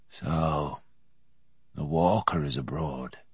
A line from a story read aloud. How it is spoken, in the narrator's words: the farmer said softly to himself